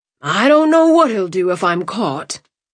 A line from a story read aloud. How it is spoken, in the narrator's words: Bennett wheezed